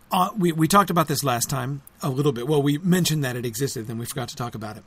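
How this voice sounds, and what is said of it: Hoarse, voice starting to go. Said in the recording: “I'm starting to lose my voice”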